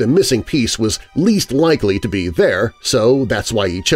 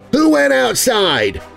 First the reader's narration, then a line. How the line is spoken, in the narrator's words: Milo shouted